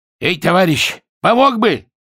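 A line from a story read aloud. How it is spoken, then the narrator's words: Hoarse shout. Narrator (Russian): хрипло прокричал лейтенант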